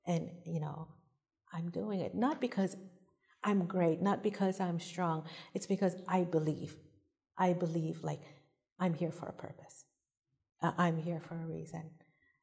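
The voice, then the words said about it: Island accent. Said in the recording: “I'm an island girl, with an accent”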